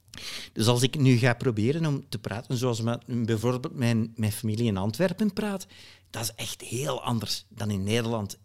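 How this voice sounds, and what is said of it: Imitated Flemish accent in Dutch. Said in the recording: “let me do my Flemish accent. ... So that was Flemish. Or at least my attempt at Flemish.”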